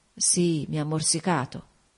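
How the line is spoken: Murmured. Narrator (Italian): mormorò

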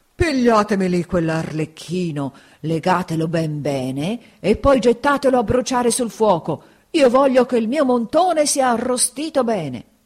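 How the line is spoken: Puppeteer's rasping voice. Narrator (Italian): il burattinaio disse loro con voce rantolosa

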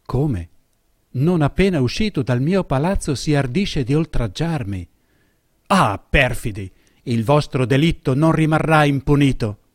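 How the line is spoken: Exclaiming to himself. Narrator (Italian): non potendo dubitare esclamò fra sé

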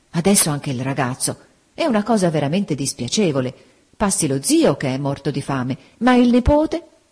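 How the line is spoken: Dismayed exclamation. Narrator (Italian): Don Mariano, con aria costernata, esclamò

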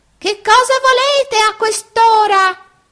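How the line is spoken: Irritated old man shouting. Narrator (Italian): un vecchino il quale gridò tutto stizzito

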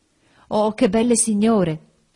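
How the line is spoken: Exclaimed. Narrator (Italian): esclamò

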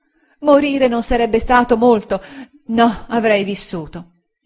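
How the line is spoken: Woman exclaiming. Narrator (Italian): Ella esclamò

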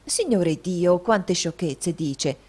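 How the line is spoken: Exclaimed. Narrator (Italian): esclamò

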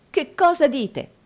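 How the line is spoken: Exclaimed. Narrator (Italian): esclamò Nicola

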